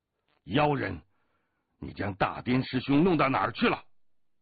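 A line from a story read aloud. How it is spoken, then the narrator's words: Angry shout. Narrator (Chinese): 一名罗汉怒喝道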